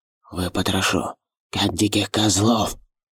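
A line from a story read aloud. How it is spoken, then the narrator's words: Hissing. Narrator (Russian): Прошипел Шагат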